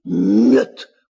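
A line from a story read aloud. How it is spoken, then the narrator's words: Tiger growling. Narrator (Russian): прорычал тигра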